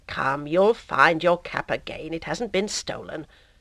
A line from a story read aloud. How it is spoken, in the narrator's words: in a gentler tone